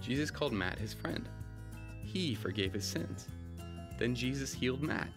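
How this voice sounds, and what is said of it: Put-on American accent. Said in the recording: “That's my American accent”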